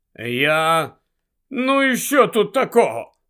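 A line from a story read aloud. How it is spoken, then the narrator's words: Grumbled. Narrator (Ukrainian): буркнув Гаррі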